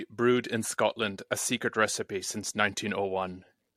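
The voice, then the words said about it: Put-on Scottish accent. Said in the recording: “my best attempt at a Scottish accent ... That's good.”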